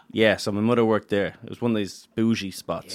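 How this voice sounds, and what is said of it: Accent saying 'th' as 't' or 'd'. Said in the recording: “the mutter and the brudder ... I thought the Philly accent was bad”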